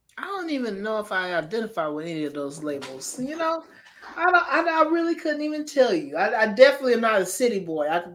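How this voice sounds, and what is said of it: Southern country twang. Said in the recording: “you already have the twang in you because you're from South Kakalaki ... you still kind of got that country grammar to you”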